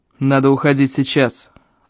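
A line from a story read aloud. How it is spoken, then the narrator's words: Growl. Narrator (Russian): рыкнул Эльм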